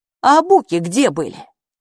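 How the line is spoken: Snorting. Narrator (Russian): Хилла фыркнула

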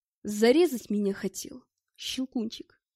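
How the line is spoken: Quiet question. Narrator (Russian): тихо спросил

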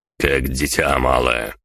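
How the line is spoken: Angry snap. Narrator (Russian): зло бросил Генри

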